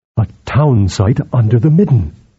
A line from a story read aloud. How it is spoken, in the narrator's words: Balik murmured